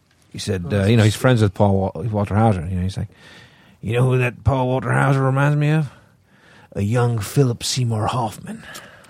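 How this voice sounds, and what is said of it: Imitates another person's voice. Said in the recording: “It's a pretty good impression of MC”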